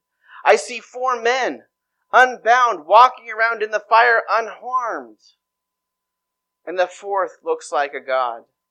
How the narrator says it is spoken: Nebuchadnezzar shouted

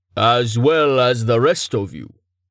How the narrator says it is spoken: Tallheart rumbled

